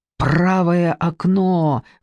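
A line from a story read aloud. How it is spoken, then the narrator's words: Hoarse shout. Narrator (Russian): хрипло заорал Андрей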